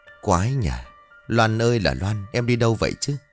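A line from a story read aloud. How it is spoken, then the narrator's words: Muttering to himself. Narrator (Vietnamese): Lộc lúc này lẩm bẩm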